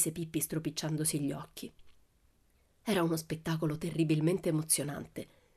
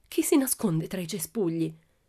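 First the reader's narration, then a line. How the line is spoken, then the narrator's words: Frightened voice. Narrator (Italian): la contessa Aurora disse con voce spaventata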